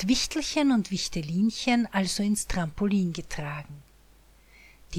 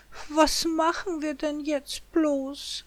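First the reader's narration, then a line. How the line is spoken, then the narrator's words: Woman sighing. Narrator (German): seufzt sie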